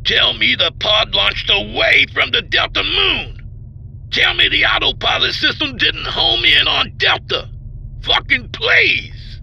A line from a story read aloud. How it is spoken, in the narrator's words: He bellowed